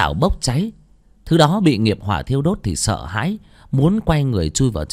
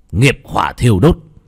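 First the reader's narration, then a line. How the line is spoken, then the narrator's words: Sharp shout. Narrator (Vietnamese): bác cổ gần giọng quát lên một tiếng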